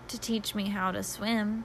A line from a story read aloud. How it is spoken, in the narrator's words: blushed and whispered